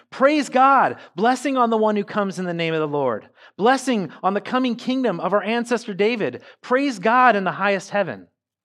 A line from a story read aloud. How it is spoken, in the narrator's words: the people all around him were shouting